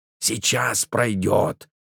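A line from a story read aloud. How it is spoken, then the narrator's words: Strained hiss. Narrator (Russian): прошипел Пантелей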